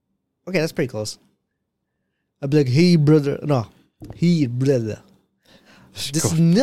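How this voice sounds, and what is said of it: Usual voice. Nothing is said of it.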